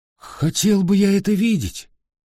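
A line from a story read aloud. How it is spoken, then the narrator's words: Exclamation. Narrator (Russian): воскликнул Дон Кихот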